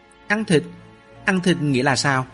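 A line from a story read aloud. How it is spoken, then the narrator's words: Stammering. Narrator (Vietnamese): Mạnh Cường lắp bắp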